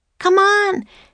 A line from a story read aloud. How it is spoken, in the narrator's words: Annie shouted